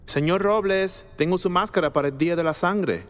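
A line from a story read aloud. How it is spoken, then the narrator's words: Shouted. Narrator (Spanish): gritó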